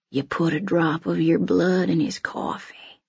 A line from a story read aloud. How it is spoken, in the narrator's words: whispers